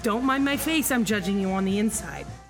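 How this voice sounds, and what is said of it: Deep judgy voice with accent. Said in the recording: “my judgy voice ... a voice that is a little bit judgy ... deep voice. You're using an accent ... you have an accent now”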